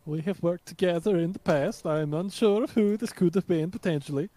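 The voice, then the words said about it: Put-on accent. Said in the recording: “I'm going to drop the accent.”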